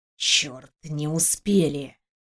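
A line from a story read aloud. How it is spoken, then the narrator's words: Miserable whisper. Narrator (Russian): прошептал этот несчастный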